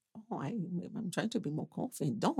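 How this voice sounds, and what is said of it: Unidentified put-on accent. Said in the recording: “What was that? What accent was that?”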